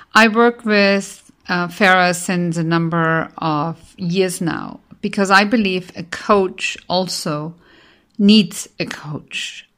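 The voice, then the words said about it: Austrian-accented English. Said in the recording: “I'm based in Vienna, Austria, hence my accent.”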